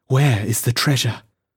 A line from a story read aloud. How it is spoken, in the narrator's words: said the girl, rather breathlessly